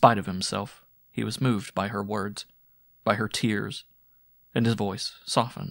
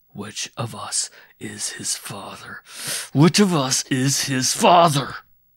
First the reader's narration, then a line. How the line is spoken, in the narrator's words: His eyes were bloodshot, and it was through clenched teeth that he hissed